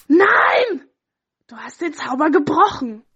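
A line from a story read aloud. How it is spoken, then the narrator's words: Witch screaming loudly. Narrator (German): die böse Hexe schrie laut auf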